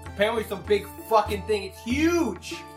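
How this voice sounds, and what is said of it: Put-on New York accent. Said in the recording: “I did not expect a New Yorker accent.”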